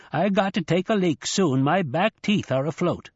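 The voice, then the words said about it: Sharp Yankee accent. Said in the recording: “that sharp Yankee accent”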